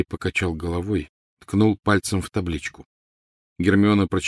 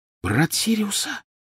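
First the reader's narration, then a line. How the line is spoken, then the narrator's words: Whisper. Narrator (Russian): прошептала она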